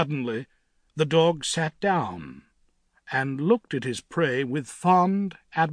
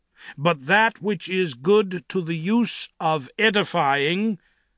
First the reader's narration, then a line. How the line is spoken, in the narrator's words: he quoted in a loud voice